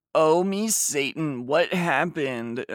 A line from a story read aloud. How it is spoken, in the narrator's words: I screamed